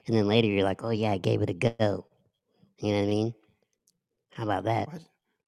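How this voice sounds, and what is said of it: Put-on sexy voice. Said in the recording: “Why'd you put your sexy voice on? ... I told you about putting your sexy voice on.”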